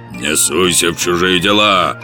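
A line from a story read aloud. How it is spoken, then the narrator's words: Rudely curt. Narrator (Russian): грубо отрезал Кенти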